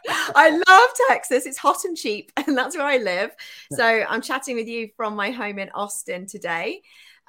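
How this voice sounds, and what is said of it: English accent. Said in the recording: “the accent is from England”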